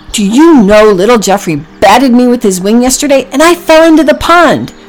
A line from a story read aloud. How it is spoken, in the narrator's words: Packy cried